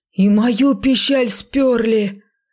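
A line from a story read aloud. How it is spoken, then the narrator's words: Howling robber. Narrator (Russian): взвыл одноглазый разбойник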